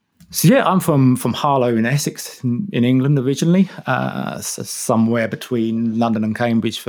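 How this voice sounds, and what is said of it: English accent. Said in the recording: “a decidedly not New Zealand accent”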